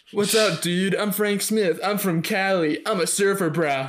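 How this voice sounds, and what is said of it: California surfer dude accent. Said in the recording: “I can do that better than a Midwest. I don't know why I didn't just go straight to California surfer, dude”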